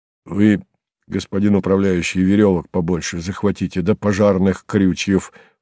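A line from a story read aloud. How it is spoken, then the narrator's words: Deep bass voice. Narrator (Russian): промолвил басом Житков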